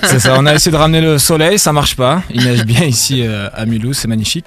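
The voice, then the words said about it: Southern French regional accent. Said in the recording (French): “il nous semblait entendre un accent”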